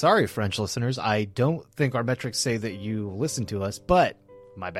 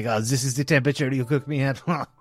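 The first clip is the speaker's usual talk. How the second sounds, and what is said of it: Bad put-on French accent. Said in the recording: “those are our terrible French accents.”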